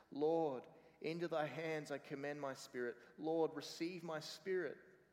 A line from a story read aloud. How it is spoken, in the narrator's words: When Ridley saw the flames leap up, he cried with a loud voice